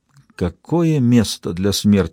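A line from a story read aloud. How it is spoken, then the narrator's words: Whisper. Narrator (Russian): прошептала Берилл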